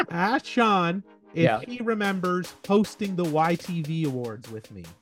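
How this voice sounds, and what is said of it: Imitates another person's voice. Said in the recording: “my Caroline Ray impression”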